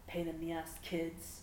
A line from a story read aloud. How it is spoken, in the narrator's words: muttered